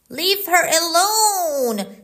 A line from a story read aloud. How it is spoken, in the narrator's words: shouted Dick